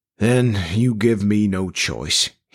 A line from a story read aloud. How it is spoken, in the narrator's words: he said finally, his voice suddenly tired and barely audible